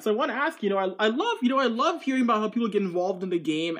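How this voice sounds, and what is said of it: North American English accent. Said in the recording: “I'm just glad to hear North American accent ... It's good to hear a North American accent.”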